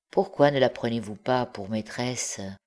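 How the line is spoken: Low voice aside. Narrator (French): il ajouta à voix basse en s'adressant à son compagnon

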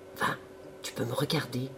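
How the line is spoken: Murmur. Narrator (French): murmura celle-ci

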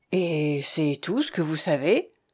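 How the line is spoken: Shaken questioning voice. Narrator (French): interrogea Gaston d'une voix altérée

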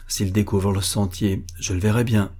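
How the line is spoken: Murmur. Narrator (French): murmura-t-il

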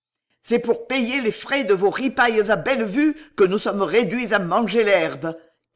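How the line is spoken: Shouting. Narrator (French): criait-il au Buguet

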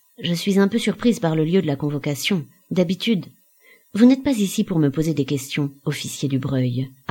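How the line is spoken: Calm, deliberate. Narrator (French): articula calmement Jean

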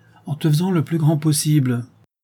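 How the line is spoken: Shouting. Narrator (French): cria-t-il

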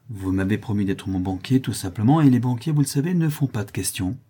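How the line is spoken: Offhand tone. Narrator (French): dit-elle d'un ton négligent

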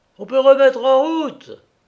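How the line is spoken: Yelled into brass mouthpiece. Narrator (French): alla hurler Kressler dans l'embouchure de cuivre

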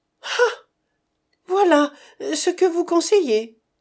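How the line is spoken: Exclaimed. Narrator (French): s'écria Césarine

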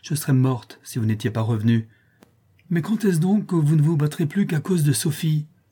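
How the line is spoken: Exclaiming. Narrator (French): s'écria-t-elle

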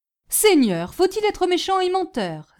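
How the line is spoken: Porter exclaiming. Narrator (French): s'écria le portier

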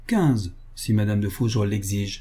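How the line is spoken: Cold reply. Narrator (French): répondit froidement Alexandrine

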